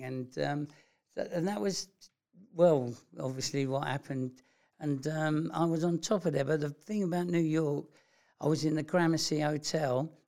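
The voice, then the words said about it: London accent. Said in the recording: “he clocked my London accent type thing”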